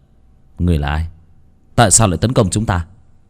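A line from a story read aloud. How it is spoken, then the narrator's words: Muttering. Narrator (Vietnamese): Bác Cổ nhìn thứ đó lẩm bẩm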